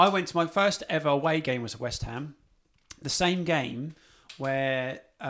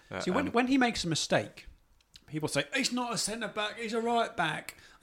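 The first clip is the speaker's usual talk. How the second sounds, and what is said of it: Put-on Cockney accent. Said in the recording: “I don't know why they're Cockney, but they just are ... That was the Cockney accent.”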